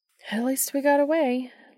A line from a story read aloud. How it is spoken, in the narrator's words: Lydia sighed